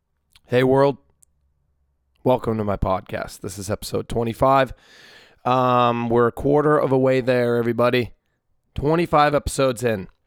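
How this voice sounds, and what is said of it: Slightly hoarse voice. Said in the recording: “My voice is a little hoarse right now. I sang for 4 hours last night”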